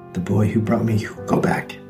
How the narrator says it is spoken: he whispered

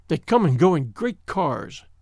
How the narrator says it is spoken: said bitterly

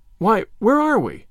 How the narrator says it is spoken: exclaimed Diana in bewilderment

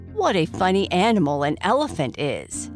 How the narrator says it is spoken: exclaimed Slicko

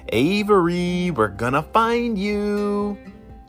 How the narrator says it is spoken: Olivia shouted

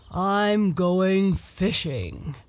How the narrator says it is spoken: said he in his deep, grumbly, rumbly voice

